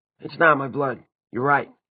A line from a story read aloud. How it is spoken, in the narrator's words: Simon said hoarsely